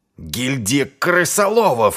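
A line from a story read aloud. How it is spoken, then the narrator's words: Furious growl. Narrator (Russian): зарычал Артур, от ярости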